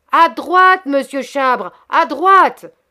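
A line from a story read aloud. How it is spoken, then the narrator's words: Shouted. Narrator (French): cria Hector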